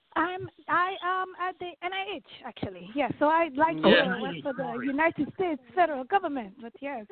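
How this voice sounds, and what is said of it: Noticeable non-American accent. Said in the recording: “your accent is just adorable”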